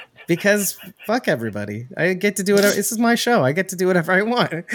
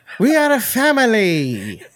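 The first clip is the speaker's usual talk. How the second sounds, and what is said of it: Put-on accent. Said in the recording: “Why are you doing the accent?”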